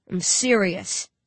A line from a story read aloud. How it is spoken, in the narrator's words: he says coldly